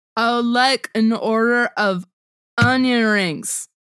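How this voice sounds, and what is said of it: Drunk character voice impression. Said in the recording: “your impersonation of Stu in um, Confessions of a Teenage Drama Queen ... only the scene when he's drunk”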